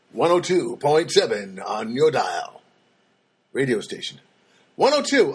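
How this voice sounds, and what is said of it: Announcer-style radio voice. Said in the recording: “I don't know why I went to that radio voice”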